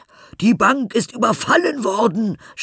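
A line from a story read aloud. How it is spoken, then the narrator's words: Shouting group. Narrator (German): schrien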